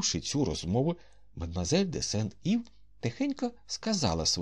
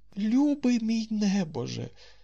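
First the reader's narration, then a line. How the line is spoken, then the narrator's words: Tender. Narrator (Ukrainian): сказав ніжно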